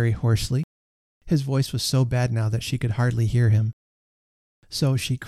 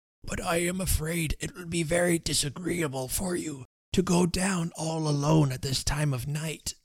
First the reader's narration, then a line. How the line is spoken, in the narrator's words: he croaked out in a piteous whisper